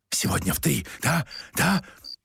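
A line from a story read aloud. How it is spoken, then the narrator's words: Whistling whisper. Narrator (Russian): со свистом прошептал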